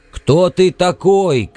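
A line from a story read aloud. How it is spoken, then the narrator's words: Shouting again. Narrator (Russian): крикнул Лафарж снова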